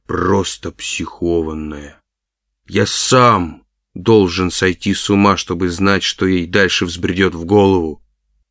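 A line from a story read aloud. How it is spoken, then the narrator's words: Exhausted mumble. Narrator (Russian): я обессиленно я пробормотал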